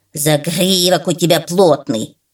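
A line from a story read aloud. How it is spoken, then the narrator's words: Crow grumbling. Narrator (Russian): пробурчала ворона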